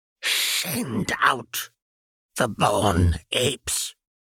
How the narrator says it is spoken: he rasped, his voice sounding so cruel and hollow in the cave

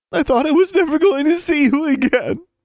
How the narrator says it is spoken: Anna sobbed

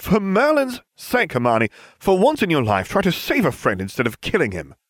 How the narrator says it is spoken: I snapped

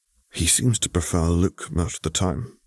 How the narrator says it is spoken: Zev weighed in quietly

